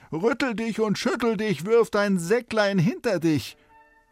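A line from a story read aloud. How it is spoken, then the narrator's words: Calling out. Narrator (German): Der rief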